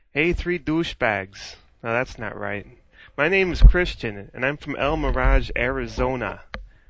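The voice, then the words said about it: Put-on Chicago and Boston accent. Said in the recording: “I'm sort of doing like a Chicago South Side thing with a little bit of a Boston. I don't know if it's working or not.”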